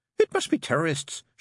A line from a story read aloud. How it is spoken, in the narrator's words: she snapped